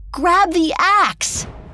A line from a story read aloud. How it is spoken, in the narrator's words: Jack shouted